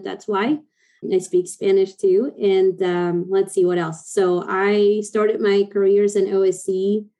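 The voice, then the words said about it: Argentine Spanish-accented English. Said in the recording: “i'm from argentina so if you hear a little weird accent”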